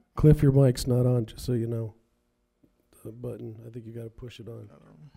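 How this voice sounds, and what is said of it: Slightly raspy voice. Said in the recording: “my voice is a little raspy. I've been sick.”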